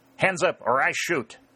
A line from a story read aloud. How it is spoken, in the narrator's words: Dalton cried sharply